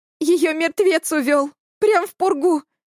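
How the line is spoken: Sobbing, breaking into tears. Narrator (Russian): всхлипнула Эля и разрыдалась

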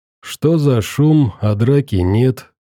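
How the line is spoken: Calm inquiry. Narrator (Russian): поинтересовался подошедший спокойным голосом

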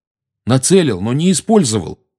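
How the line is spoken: Angry. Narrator (Russian): сердито начал Гарри

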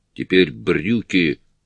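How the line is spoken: Growl. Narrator (Russian): прорычала Петти

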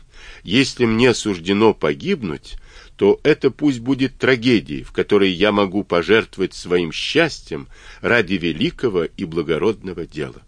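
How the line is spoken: Sobbing. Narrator (Russian): она рыдала

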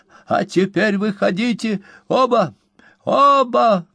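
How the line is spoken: Breathless, excited exclamation. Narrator (Russian): воскликнул мистер Пиквик, задыхаясь как от волнения, так и от потери некоторого запаса энергии

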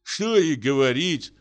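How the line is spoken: Sighing sick person. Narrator (Russian): вздохнул больной

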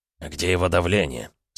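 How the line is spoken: Quiet question. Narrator (Russian): спросил негромко Глеб Леонидович

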